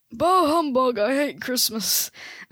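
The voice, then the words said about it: Old man character voice. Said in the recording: “Give us your best Scrooge impression ... That was like an accent. I did like a really old voice ... I'm an old man”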